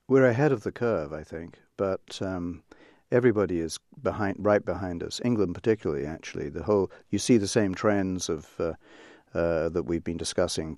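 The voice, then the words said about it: Slight English accent lilt. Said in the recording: “I hear a little lilt of an English accent there.”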